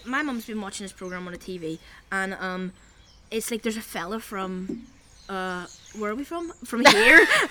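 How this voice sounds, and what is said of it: Belfast accent. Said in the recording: “I have a weird accent ... I know I sound weird ... why do Belfast people, like, sound so uneducated?”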